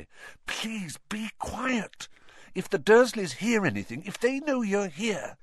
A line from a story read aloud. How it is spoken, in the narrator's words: Harry whispered frantically